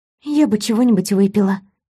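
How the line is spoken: Very quiet speech. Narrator (Russian): я сказала это совсем тихо

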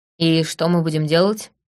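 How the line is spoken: Gloomy grumble. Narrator (Russian): мрачно буркнул Лаурень

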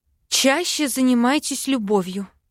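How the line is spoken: Breathed out. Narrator (Russian): выдохнула я

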